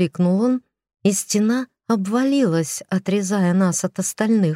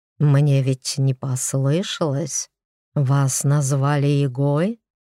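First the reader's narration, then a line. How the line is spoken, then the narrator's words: Insinuating whisper in ear. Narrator (Russian): вкрадчиво шепнули мне на ухо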